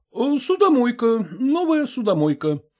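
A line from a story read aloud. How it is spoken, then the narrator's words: Calm reply, cook. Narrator (Russian): спокойно ответил повар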